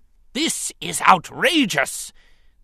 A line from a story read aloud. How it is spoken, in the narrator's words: the Trade Federation senator thundered